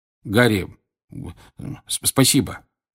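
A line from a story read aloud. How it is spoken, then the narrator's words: Muttering. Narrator (Russian): бормотал Джордж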